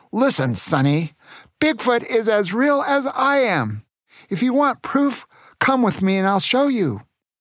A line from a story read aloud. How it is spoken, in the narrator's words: shouted